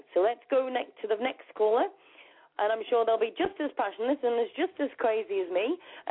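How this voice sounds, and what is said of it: English accent. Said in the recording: “I love your English accent.”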